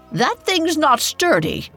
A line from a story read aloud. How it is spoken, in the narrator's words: His mother shouted behind him